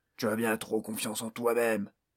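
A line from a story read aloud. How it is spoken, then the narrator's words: Orc growling. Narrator (French): gronda l'orque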